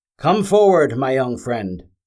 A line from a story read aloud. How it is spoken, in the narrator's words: Aceris called out